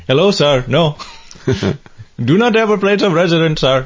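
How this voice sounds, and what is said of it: Put-on Indian accent. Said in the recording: “fake an Indian accent”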